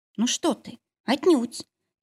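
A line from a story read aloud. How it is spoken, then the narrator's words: Sad, smiling. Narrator (Russian): также грустно улыбнулась Настя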